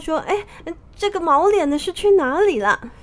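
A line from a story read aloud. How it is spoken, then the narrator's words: Laughing. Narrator (Chinese): 猪八戒笑道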